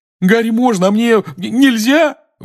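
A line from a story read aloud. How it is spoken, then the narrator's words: Howling wail. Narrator (Russian): взвыл Рон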